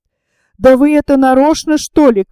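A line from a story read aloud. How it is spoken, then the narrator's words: Shouted angrily. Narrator (Russian): крикнула в гневе мадам Виргинская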